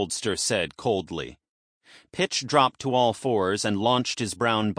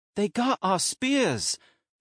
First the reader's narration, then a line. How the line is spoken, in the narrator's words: Runner exclaimed